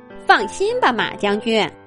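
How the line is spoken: Smiling rabbit. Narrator (Chinese): 小兔子脸上堆着笑容回答说

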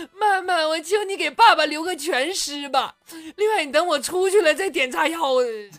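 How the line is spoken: Terrified girl crying. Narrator (Chinese): 女儿吓坏了，就哭了，说

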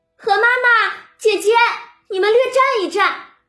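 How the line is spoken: Hurried calling out. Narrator (Chinese): 戏子蕊官赶出来叫道

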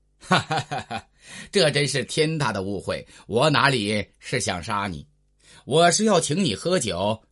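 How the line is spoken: Hearty laughter. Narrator (Chinese): 大笑道

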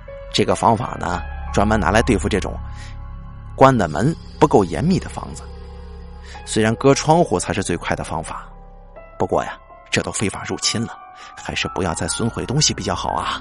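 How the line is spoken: Calm, indifferent. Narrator (Chinese): 他淡淡的说

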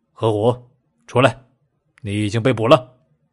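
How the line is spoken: Cold. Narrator (Chinese): 梁野冷声说道

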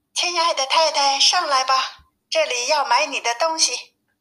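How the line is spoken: Calling out. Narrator (Chinese): 叫道

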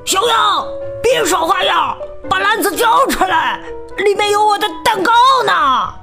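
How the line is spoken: Wolf's angry shout. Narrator (Chinese): 大灰狼愤怒地大喊

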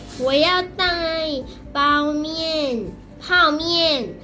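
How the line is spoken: Louder, decisive. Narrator (Chinese): 林小明娘 更大声的决定

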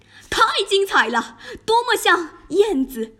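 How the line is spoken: Judges shouting. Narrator (Chinese): 评审委员们大喊

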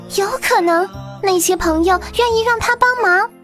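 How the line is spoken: Shouting. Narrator (Chinese): 松鼠大叫

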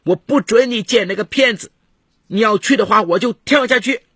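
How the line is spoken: Shouting. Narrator (Chinese): 他 大喊

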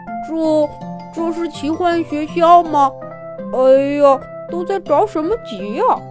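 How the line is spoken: Slow drawling voice. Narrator (Chinese): 青青小公主的身后传来了一个慢吞吞的声音

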